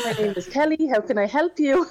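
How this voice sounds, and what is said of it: Customer service phone voice. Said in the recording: “in my customer service voice”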